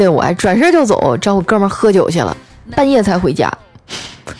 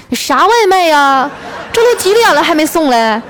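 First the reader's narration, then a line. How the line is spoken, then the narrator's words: Loud shouting woman. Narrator (Chinese): 我媳妇儿 大声的喊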